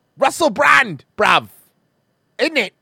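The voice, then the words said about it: Put-on British accent. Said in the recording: “That's a pretty good British accent. We're nailing it”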